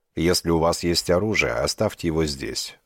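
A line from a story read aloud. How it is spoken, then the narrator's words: Flat monotone guard voice. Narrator (Russian): ровным монотонным голосом сказал один из охранников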